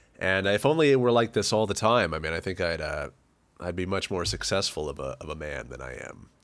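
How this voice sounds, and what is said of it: Deep, gravelly sick voice. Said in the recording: “You've got a real good gravel going this week ... Whenever I get sick, it goes real deep and kind of clogs up the vocal cords a little bit, gets it kind of gummed up ... sick voice”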